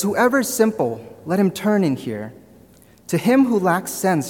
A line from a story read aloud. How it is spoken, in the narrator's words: says